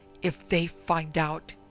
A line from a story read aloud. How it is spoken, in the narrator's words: exclaimed in a harsh, ominous whisper